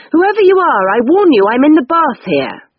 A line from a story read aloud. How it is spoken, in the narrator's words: I couldn't bear it any longer, so I yelled out